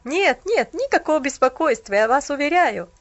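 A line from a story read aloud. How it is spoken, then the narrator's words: Awkward laughing young man. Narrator (Russian): засмеялся молодой человек, стараясь скрыть неловкость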